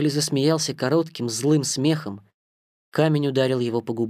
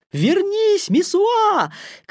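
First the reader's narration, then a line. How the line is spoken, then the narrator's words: Crowd shouting. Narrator (Russian): кричала толпа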